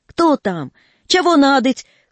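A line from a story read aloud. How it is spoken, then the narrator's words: Straining weak voice, shouting. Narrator (Russian): кричал Федотыч, напрягая слабый голос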